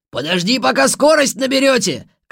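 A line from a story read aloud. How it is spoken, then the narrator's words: Shout after. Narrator (Russian): крикнул нам вслед Погаса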